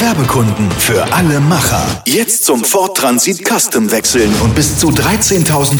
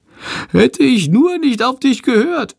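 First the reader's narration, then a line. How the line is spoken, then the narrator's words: Whining. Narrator (German): jammert Shandor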